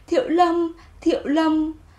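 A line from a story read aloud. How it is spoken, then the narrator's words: Trembling. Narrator (Vietnamese): Anh run run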